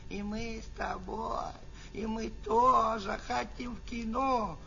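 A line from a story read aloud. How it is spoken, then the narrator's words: Whining, whimpering. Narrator (Russian): сейчас же бы заныли бы и захныкали бы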